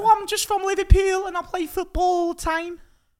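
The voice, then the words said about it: Put-on Scouse accent. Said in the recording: “your best Scouse accent ... your accents are very good. ... it's not bad.”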